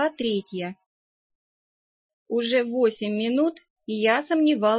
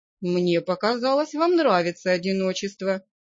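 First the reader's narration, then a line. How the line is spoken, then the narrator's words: Calm. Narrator (Russian): спокойно ответил страж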